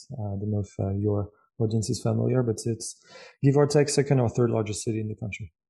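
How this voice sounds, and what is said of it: French accent. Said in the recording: “I grew up in France. I'm pretty sure from my accent you guys have figured it out now.”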